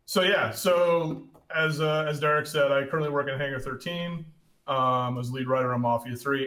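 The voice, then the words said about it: Hoarse voice from a cold. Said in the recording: “I'm coming down with a cold, so my voice isn't super great today.”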